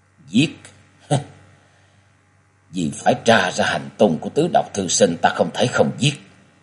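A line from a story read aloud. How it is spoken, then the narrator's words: Sighing mutter. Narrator (Vietnamese): Huyết Ma Thiên Tôn cất lên tiếng thở dài lẩm bẩm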